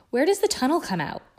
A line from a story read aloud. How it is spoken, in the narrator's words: Hermione asked breathlessly from behind him